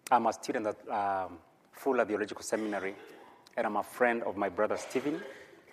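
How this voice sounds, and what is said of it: Kenyan accent. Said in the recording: “from my accent, I'm from Kenya”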